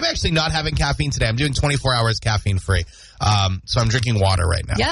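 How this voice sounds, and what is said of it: Usual voice. Nothing is said of it.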